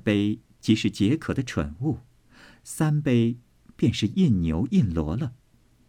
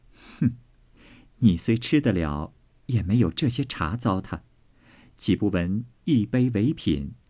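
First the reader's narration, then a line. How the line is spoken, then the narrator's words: Laughing. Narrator (Chinese): 妙玉笑道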